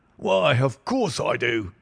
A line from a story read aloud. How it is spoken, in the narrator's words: he wheezed